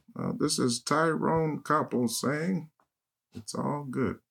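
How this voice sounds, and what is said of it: Imitates a newscaster's voice. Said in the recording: “Was it supposed to be a Ted Koppel impersonation? Because it sounded like Obama.”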